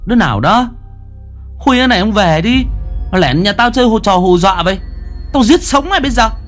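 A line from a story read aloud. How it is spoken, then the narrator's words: Panicked shout. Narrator (Vietnamese): Mi hốt hoảng hét lớn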